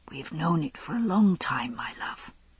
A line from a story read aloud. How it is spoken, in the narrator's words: he whispered to her